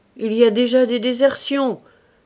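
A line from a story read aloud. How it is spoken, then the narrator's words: Menacing shout. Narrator (French): crie-t-il d'une voix menaçante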